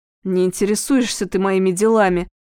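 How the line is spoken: Angry. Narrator (Russian): сердито произнес Теляев

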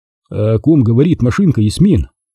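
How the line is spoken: Plain. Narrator (Russian): спросил я

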